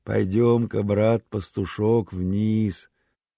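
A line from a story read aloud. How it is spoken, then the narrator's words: Gentle. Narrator (Russian): ласково сказал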